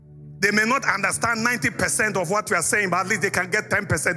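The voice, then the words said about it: Speaks with a noticeable accent. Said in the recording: “I have an accent. Look, I have an accent ... my accent was the most beautiful”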